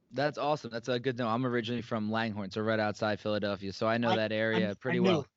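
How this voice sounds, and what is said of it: Northeast US accent. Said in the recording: “I could hear that Northeast accent”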